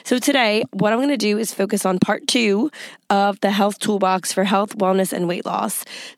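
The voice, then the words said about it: Hoarse, congested voice. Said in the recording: “My voice is a little bit off. It's hoarse, and I've been fighting this head cold for about a week... my voice is still crappy”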